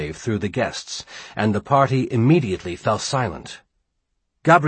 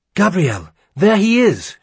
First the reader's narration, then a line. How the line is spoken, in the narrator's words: Jacqueline gasped